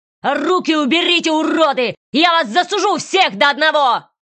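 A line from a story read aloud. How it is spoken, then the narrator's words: Spluttering furious yelling. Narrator (Russian): орал он, захлебываясь слюной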